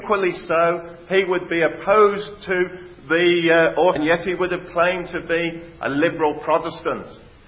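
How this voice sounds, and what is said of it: West Midlands English accent. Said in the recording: “probably picked up from my accent, I come from the West Midlands”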